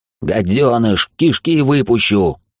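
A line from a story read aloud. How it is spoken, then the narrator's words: Enraged roar. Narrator (Russian): взревел Эвовец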